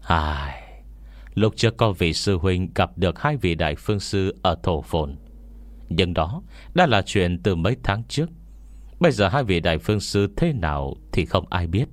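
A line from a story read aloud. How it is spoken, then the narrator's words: Sighing. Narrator (Vietnamese): Đồng Thích Trấn cũng thở dài theo, nói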